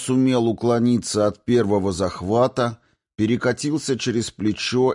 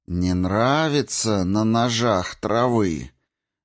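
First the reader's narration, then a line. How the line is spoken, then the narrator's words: Slow, deliberate, bewildered. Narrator (Russian): Медленно и с расстановкой произнесла Ерина, сама не понимая, откуда пришли эти слова и интонации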